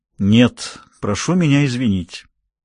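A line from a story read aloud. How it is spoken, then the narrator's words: Icy, cold. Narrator (Russian): отвечал отец ледяным тоном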